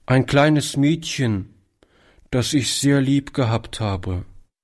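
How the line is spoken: Boy answering with deep sigh. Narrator (German): antwortete der Junge mit einem tiefen Seufzer

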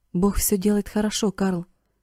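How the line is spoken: Whisper. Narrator (Russian): прошептал он

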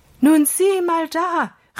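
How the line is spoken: Calling out. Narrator (German): rief er Holger zu

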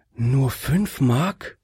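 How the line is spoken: Lady sighing. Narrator (German): seufzte die Dame

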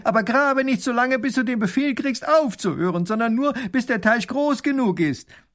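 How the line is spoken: Calling after. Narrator (German): ruft ihm noch nach

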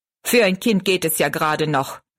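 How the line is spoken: Angry. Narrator (German): meinte er zornig

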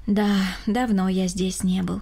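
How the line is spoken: Sighing. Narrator (Russian): вздохнул Рома

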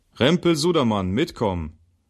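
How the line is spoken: Guard calling out. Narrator (German): Der Wachmann ... rief

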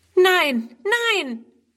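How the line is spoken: Horrified cry. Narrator (German): ruft Friedrun entsetzt

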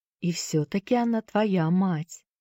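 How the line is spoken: Soft. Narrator (Russian): мягко произнесла миссис Шафта

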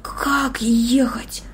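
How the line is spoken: Whisper. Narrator (Russian): прошептал

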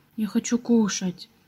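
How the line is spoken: Quiet speech. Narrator (Russian): тихо сказал

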